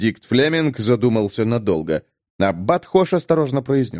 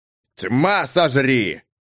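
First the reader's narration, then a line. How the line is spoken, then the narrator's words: Roaring. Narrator (Russian): взревел Бенедикт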